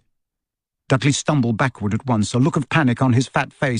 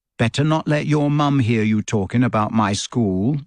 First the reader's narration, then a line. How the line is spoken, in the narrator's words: said Harry coolly